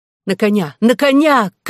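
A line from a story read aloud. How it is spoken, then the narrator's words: Shout. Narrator (Russian): крикнула в свою очередь Мизи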